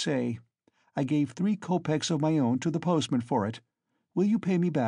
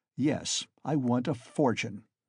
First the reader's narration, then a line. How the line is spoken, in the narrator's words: he answered firmly, after a brief pause